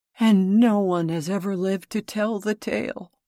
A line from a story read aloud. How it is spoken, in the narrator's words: murmured Cap'n Bill in horror